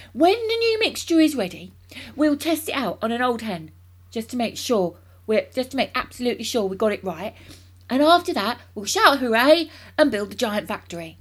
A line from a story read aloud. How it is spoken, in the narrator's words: he cried